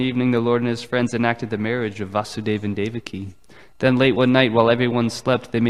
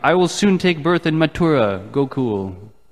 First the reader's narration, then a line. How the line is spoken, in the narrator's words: one of the boys, hidden from view, loudly declared